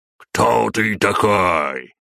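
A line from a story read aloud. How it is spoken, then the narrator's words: Bark in broken French. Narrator (Russian): рявкнул гигантский азиат на ломанном французском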